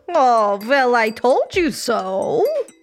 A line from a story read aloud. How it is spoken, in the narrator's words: Baba snort laughed